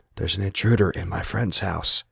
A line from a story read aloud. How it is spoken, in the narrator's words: he whispered